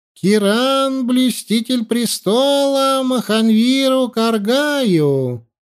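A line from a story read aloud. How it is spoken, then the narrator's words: Throat-clearing proclamation. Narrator (Russian): он откашлялся и огласил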